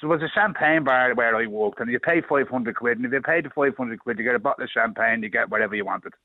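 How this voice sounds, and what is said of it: Dublin Irish accent. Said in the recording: “you know I'm from Dublin from the accent”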